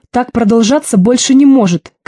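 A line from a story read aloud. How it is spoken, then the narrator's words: Shouting. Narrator (Russian): кричал иногда Вася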